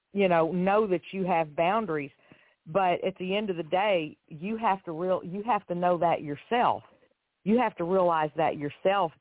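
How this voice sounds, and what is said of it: Southern US accent. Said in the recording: “I also love your accent ... I just love that southern accent.”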